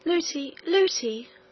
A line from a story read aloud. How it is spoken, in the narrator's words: cried the princess